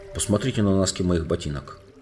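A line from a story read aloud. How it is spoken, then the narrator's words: Plain. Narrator (Russian): сказал Эдмунд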